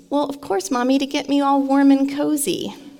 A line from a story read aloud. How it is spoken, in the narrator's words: he said, in his sweet little voice